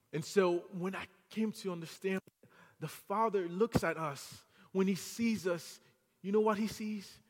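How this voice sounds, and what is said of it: French accent. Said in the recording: “I have a French accent now ... lost his Haitian accent, went to France, have a French accent.”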